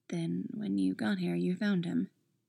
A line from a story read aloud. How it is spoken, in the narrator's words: Cora says softly